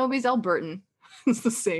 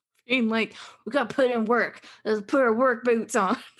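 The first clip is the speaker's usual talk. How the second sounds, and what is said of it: Put-on Southern accent. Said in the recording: “I don't know why I said that accent. ... Southern.”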